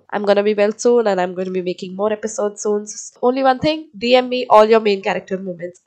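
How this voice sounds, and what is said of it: Slightly off, sick-sounding voice. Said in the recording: “sorry for my voice, it's, you know, a little weird because I have this cold”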